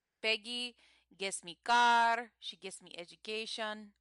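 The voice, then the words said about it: Put-on Indian accent. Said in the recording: “you're going into your Indian accent again”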